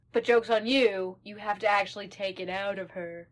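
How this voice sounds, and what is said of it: Impression of a villain character. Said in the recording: “that was my Lilith impression.”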